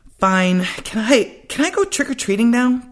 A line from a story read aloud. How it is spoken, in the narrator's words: Jason asked excitedly